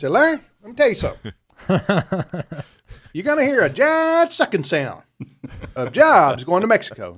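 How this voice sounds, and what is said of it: Imitates another person's Texas drawl. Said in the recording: “his Texas draw ... that's a pretty good imitation of how he sounded”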